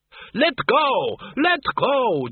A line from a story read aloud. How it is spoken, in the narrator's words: Doreen screamed